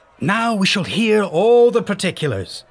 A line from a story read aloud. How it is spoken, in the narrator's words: shouted the crowd